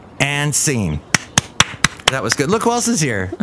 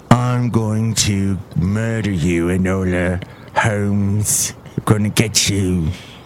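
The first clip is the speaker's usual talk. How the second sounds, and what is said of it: Put-on British accent. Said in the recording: “I was doing my British accent like this, kind of.”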